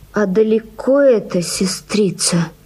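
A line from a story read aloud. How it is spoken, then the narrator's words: Wounded man, groaning question. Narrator (Russian): спросил раненый в живот, и застонал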